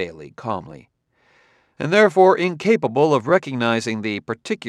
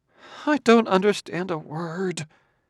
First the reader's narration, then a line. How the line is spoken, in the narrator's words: muttered Clarissa in distress